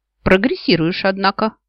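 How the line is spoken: Snorting, wry. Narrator (Russian): хмыкнул Нил

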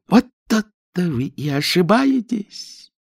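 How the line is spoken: Joyful squeal. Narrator (Russian): радостно взвизгнул первый мыслитель

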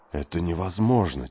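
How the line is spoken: Quiet. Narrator (Russian): тихо сказал он

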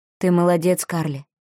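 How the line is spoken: Soft. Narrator (Russian): мягко сказал Ник

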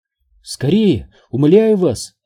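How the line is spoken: Exclaimed. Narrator (Russian): воскликнул Сайтримба

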